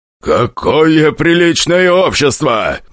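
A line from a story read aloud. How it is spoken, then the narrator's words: Deep bass voice. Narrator (Russian): басил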